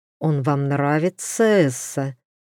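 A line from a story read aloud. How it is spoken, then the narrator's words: Words through clenched teeth. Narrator (Russian): процедил сквозь зубы герцог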